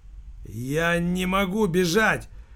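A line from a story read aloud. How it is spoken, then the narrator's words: Wheezing rasp. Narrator (Russian): прохрипел Верзила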